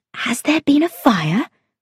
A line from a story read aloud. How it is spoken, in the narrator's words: asked in an anxious whisper